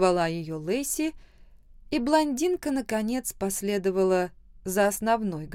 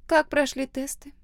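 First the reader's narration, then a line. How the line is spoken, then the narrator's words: Nearly neutral, hidden excitement. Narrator (Russian): спросила она почти нейтральным тоном, но я слышала в ее голосе волнение и нетерпение, которое она всячески пыталась скрыть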